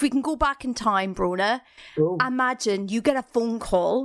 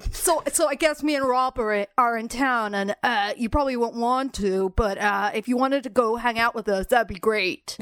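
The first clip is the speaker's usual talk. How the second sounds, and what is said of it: Imitates another person's voice. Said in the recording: “that's a good impression. That's a great impression of Kristen Stewart.”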